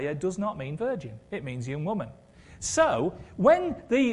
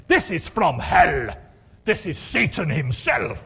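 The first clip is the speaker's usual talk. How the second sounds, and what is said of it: Imitates another person's voice. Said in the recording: “my Reinhard Bonnke impression, ... I slipped into his voice there”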